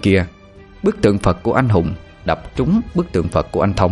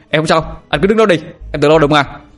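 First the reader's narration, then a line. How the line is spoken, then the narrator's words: Shouted upward. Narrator (Vietnamese): hét ngược lên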